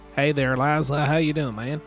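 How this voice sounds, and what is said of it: Put-on rural farmer accent. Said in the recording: “I've been working on my wheat farmer accent. ... That is spectacular”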